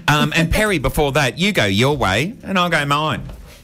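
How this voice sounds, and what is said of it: Slips into Australian accent. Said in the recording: “I'm slipping into the Australian accent”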